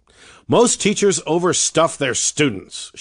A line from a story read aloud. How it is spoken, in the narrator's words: would exclaim